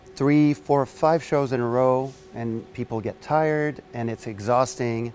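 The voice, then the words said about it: French Canadian accent. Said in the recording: “he's got a very sexy accent... French Canadian”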